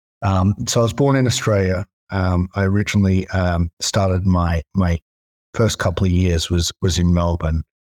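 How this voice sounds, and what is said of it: Australian twang accent. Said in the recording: “You may hear by my twang, and it comes out after a couple of glasses of wine a little bit more.”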